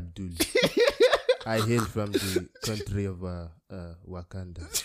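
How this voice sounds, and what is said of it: Fake mixed African accent. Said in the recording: “The accent, bro... That is not an actual African accent... It's like a mixture.”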